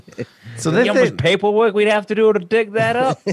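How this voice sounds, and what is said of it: Convincing put-on Chicago accent. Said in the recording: “That's a good Chicago accent. ... That actually is a good Chicago accent.”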